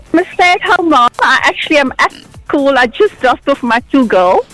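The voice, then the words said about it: South African accent. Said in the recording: “There's a South African accent.”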